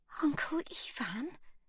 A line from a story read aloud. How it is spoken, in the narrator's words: she whispers